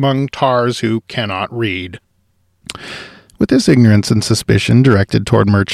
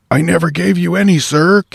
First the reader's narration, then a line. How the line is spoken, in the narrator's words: came the half-choked reply